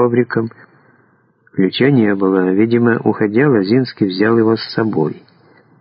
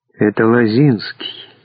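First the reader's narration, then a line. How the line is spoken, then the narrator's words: Quiet, from behind. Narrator (Russian): тихо произнес за его спиной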